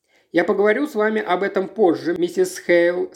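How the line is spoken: Plain. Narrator (Russian): сказал окружной прокурор

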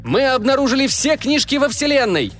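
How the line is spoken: Yelling. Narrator (Russian): заорал Мика

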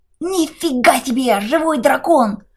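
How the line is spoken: Squeaky mischievous voice. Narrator (Russian): пропищал мелкий пакостник

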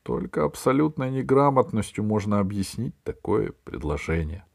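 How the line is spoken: Sighing. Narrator (Russian): вздохнул Громозека

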